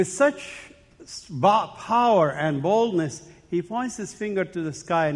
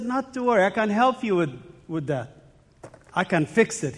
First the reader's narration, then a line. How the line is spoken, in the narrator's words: said